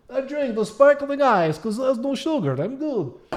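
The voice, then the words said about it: Impression with a Russian accent. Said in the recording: “my Gennady Golovkin impression's pretty good ... it's not the best, but that might be a little more Sergey Kovalev than... I've actually done my Russian accent”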